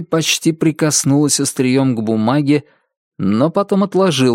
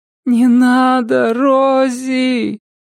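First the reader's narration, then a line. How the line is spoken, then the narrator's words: Quiet moaning. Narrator (Russian): Миссис Самара Судительность уже не вопила, она тихо стонала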